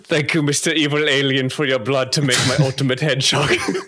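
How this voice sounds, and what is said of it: Bad Werner Herzog impression. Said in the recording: “bad impression of Werner Herzog”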